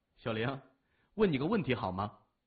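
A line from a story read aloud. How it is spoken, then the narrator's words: Loud laughing. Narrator (Chinese): 谢文东嘴角挂起了微笑，忍不住大声笑着说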